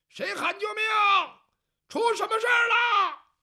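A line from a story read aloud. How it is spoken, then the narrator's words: Shouting. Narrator (Chinese): 这个人冲这边喊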